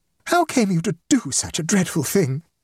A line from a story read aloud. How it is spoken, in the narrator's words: wailed the mother